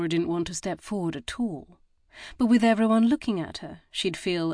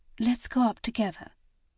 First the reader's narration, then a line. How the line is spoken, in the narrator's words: she whispered to Sally